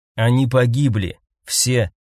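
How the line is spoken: Calm reply. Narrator (Russian): спокойно отвечал Домициан

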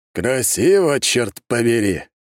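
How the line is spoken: Chuckle. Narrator (Russian): хохотнул он

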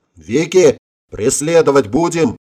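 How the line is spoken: Several voices yelling together. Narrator (Russian): параллельно ей заорали ребята

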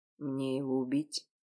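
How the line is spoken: Quiet question. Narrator (Russian): спросил тихо

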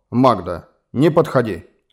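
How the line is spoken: Stern command. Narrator (Russian): строго приказал Глен

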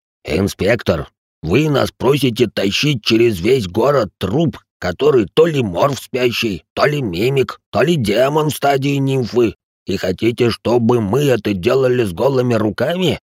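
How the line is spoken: Slight growl. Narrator (Russian): Рэй слегка рычал

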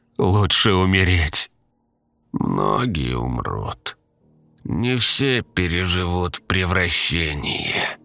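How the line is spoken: Agreeing drawl. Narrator (Russian): согласно протянула ее собеседница

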